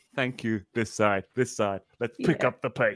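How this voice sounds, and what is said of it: Imitates another person's voice. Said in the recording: “This is my impression of John doing comedy.”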